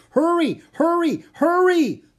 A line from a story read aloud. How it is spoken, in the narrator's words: Leonardo shouted